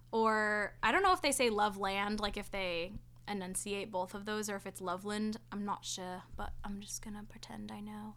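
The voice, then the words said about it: Slipping into a British accent. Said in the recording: “the slip into the British accent there”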